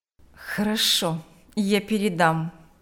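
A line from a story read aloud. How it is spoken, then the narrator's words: Through gritted teeth. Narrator (Russian): процедила сквозь зубы Марьяна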